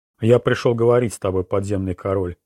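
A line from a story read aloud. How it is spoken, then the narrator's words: Cold reply. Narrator (Russian): холодно ответил Роланд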